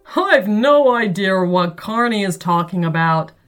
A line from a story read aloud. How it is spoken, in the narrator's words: laughed Atticus and Bashy's dad